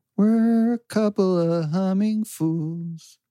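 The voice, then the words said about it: Sung imitation of a singer's voice. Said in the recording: “my very best impression of John Mayer”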